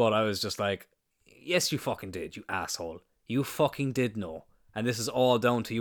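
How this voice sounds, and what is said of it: Usual voice. Nothing is said of it.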